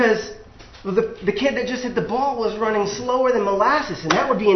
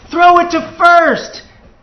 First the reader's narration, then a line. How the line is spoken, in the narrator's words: a third voice is yelling